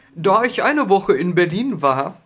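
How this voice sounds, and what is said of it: Put-on Berlin accent. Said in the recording (German): “Was ist denn das für eine Stimme jetzt? ... mein Berliner Akzent ... anders klingen als ich selbst”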